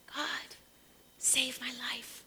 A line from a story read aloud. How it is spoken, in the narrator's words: He whispered